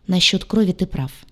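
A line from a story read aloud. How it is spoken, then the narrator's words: Muttered. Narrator (Russian): пробормотал док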